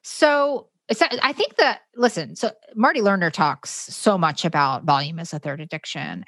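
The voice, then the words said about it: Canadian accent. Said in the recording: “I'm in love with your Canadian accent.”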